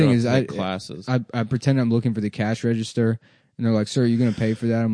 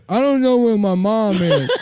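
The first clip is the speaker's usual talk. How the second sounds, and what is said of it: Put-on unidentifiable accent. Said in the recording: “I don't know what kind of accent that is.”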